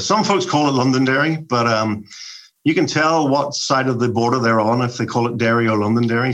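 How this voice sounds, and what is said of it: Northern Irish accent, soothing. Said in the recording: “we could tell by your accent that you have something phenomenal going on ... it's just soothing and fun to listen to ... you grew up in Derry, Northern Ireland”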